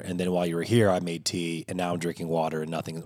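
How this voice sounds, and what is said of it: Strained, fading voice. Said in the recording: “My voice is just, it's declining fast. ... despite how my voice sounds right now.”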